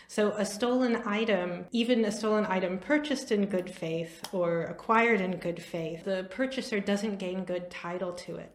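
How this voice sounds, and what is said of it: American English accent. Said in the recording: “You can probably tell by my accent that I'm an American.”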